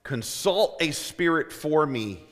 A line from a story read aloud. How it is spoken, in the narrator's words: he said